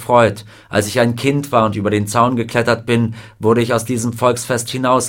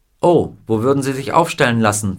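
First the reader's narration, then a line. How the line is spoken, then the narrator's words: Plain. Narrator (German): fragte der Gouverneur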